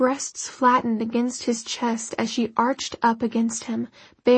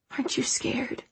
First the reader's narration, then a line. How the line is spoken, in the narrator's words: he whispered